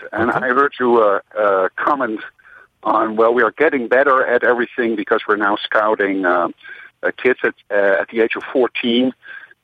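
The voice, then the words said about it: Dutch accent in English. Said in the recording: “I'm a Dutch expatriate, hence the accent”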